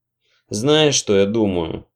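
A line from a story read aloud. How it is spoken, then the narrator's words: Mumbled while picking teeth. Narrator (Russian): пробурчал нищеброд, ковыряясь вилкой в зубах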